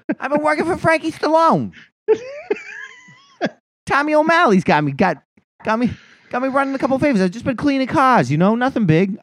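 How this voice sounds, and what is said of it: Bad Boston accent, sounds New York. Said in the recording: “I can't do a fucking Boston accent, so they just turn into bad New York accents.”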